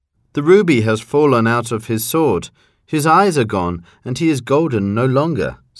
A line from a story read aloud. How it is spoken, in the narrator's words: said the mayor